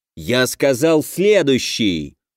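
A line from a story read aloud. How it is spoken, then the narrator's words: Growl. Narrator (Russian): прорычал студиоз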